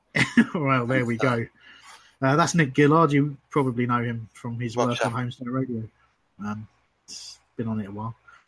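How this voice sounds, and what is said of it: Hoarse, failing voice. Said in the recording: “I've barely got a voice ... I'm thirsty and my voice is going”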